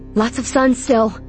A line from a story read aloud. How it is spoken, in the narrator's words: shouted between breaths